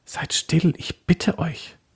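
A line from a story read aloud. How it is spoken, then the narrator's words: Whispering. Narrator (German): Susanne flüsterte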